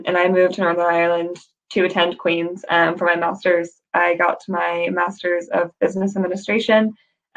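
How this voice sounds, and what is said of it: American accent with mixed blend. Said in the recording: “you can maybe tell from my accent um, i've got a weird blend now but i'm from the united states originally”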